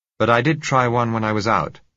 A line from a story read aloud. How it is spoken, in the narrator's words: I said